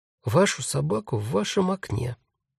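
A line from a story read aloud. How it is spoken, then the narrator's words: Quiet but firm. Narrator (Russian): сказал Дариус, тихо, но очень твердо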